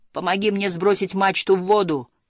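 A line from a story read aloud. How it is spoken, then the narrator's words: Shout. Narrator (Russian): крикнул Снус-мумрик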